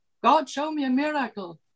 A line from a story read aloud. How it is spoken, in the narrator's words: he shouted